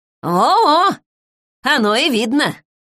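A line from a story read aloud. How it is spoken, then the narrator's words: Snorting scoff. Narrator (Russian): хмыкнула Егоровна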